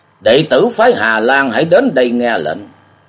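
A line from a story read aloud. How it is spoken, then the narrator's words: Loud commanding shout. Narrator (Vietnamese): Thần cơ tú sĩ Hồng Sách lớn tiếng quát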